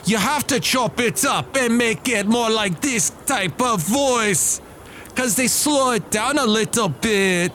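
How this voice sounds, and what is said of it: Failed reggae accent, sounds Scottish. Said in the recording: “I can do a reggae voice. That's that's awful. That's not even good. ... I end up sounding Irish ... Now I'm sounding Scottish.”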